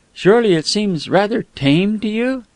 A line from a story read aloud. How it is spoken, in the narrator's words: Smith sighed